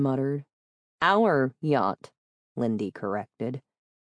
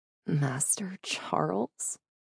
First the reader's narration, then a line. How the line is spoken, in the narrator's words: Jay whispered